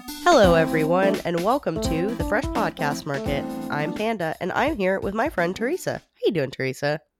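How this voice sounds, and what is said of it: Sick-sounding voice. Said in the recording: “I'm a little bit sick, as you can probably tell from my voice”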